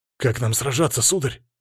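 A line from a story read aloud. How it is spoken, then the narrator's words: Breathless. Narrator (Russian): выдохнул Григорий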